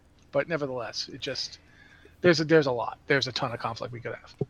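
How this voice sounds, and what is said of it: Usual voice. Nothing is said of it.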